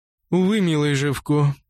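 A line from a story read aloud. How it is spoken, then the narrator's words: Sighing. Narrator (Russian): вздохнула Лукреция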